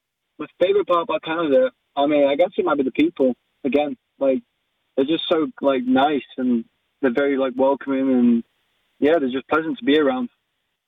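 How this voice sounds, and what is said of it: British accent. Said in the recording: “oh, your accent. Oh, I like your accent. ... where are you from in the UK?”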